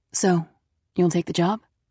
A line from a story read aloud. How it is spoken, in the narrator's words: She asked softly